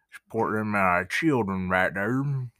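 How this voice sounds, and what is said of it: Put-on Southern accent. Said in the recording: “That's one of the southern accents.”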